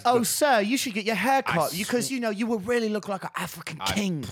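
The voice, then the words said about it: Imitated English accent. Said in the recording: “That has English accent. He has an English accent”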